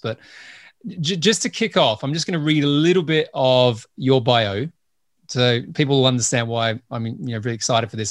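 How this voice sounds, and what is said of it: Mixed Australian accent. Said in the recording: “I'm Australian ... I now live in the UK. I've lived in the US and my accent's all over the place”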